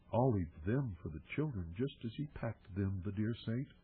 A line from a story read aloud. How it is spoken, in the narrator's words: she murmured to herself